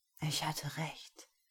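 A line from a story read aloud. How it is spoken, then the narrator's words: Breathy whisper. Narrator (German): hauchte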